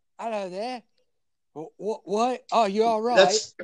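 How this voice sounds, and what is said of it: Put-on Cockney accent. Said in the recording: “It's a very Cockney accent, I think. ... very Cockney. ... Yeah, it's very Cockney.”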